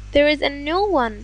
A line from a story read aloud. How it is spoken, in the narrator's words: the rest were delighted ... shouting joyously